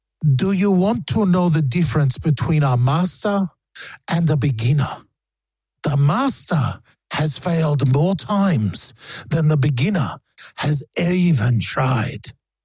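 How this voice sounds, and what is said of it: Put-on accent. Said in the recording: “Is that an offensive accent?”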